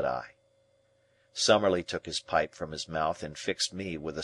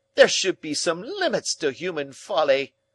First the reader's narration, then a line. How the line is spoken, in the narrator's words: cried Summerlee in a positive fury